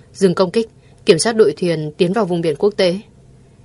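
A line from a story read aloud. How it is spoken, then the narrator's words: Cold command. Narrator (Vietnamese): Thượng Quan Mộc run sợ lạnh lùng ra lệnh cho đội cảnh sát biển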